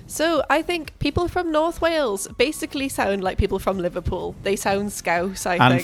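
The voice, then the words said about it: Soft, musical South Welsh accent. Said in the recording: “your sexy voice ... From South Wales ... people from South Wales sound a bit softer and a bit more musical”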